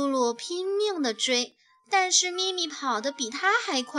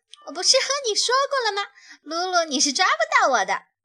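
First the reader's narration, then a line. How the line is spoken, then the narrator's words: Laughing while running. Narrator (Chinese): 他一边跑，还一边笑着说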